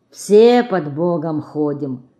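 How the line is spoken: Sighing old man. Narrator (Russian): старик и, вздохнув, добавил

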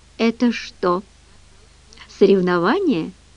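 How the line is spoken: Plain question. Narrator (Russian): спросила Генри

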